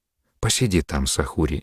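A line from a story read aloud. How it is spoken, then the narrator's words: Quiet. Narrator (Russian): негромко сказала мать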